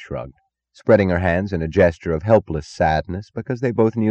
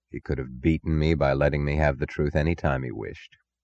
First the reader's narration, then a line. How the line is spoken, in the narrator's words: He said quietly